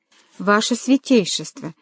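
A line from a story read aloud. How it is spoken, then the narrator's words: Muttering. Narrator (Russian): пробормотал Паллавичини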